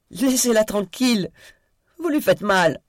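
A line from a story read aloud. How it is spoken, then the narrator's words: Shrill trembling child's voice. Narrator (French): Il avait dit cela d'une voix tremblante d'enfant que la peur et la rage rendaient encore plus aiguë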